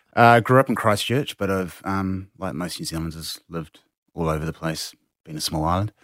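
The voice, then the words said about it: Slight New Zealand accent. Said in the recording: “I detect a New Zealand accent. A little bit.”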